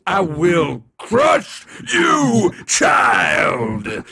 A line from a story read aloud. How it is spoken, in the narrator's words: Kronos bellowed